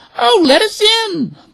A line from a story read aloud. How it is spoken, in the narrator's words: the poor birds cried